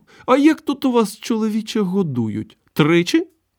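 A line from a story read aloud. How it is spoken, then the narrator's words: Cheerful. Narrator (Ukrainian): Завскладом весело сказав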